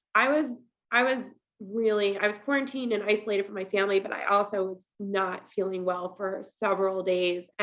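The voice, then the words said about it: Congested voice. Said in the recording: “you can probably tell my voice is still a little congested”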